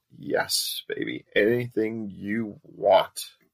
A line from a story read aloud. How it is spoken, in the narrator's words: He gasped and moaned out